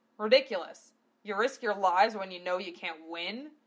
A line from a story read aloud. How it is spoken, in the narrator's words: Gov spat